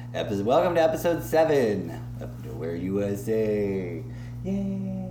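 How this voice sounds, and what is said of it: Put-on radio host voice. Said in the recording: “That's my radio voice... It's my radio voice.”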